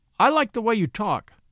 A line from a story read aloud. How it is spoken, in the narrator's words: said